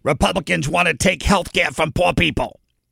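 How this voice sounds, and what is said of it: Imitates another person's voice. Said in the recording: “my worst Chuck Schumer imitation”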